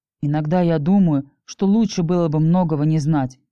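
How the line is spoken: Grumbling. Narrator (Russian): пробурчал Кирилл, впрочем, не веря в истинность этого утверждения

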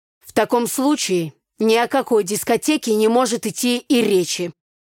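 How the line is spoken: Stern father. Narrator (Russian): строго сказал отец

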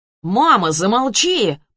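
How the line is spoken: Shouting. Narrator (Russian): прокричал Ярослав

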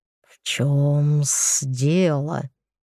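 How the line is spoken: Menacing hiss. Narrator (Russian): прошипел грозно мужчина

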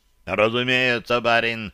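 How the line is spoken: Big man grumbling. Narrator (Russian): пробурчал здоровяк

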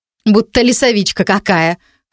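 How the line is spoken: Scornful snort. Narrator (Russian): хмыкнула первая девица

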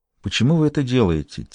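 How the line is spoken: Quiet question. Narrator (Russian): тихо спросила Мирна у Лакост

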